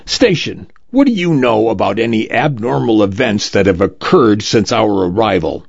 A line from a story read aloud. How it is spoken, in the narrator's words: A tall, thin woman with bruised eyes barks